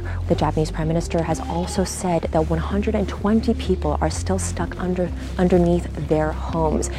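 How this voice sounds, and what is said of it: Slightly quieter, hushed voice. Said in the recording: “I'm speaking in a slightly quieter voice right now”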